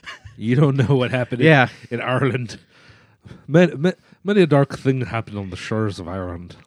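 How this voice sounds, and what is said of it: Put-on Irish accent. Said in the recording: “that accent is the most offensive thing that's going to happen in this episode”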